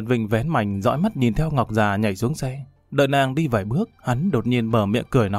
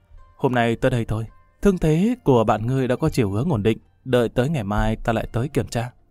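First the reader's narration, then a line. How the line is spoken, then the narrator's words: Soft young woman's voice. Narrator (Vietnamese): thiếu nữ Đột Quyết khẽ nói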